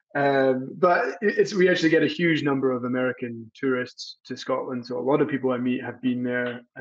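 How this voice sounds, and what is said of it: Mixed American and Scottish accent. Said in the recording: “my accent is a weird mix of American and Scottish, becoming more American by the day”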